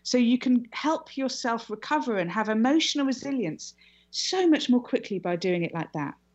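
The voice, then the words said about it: Fast speech, foreign accent. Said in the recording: “I know I'm talking quickly in a foreign accent”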